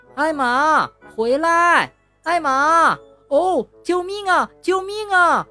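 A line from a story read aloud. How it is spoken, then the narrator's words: Crying out. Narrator (Chinese): 韦伯叫道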